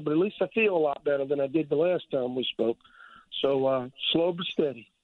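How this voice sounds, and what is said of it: Voice sounds like a cold. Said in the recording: “Sounds like you got a little bit of a cold ... my voice is still getting better”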